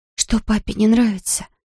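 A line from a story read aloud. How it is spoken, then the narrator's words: Whispered question. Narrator (Russian): шепотом спрашиваю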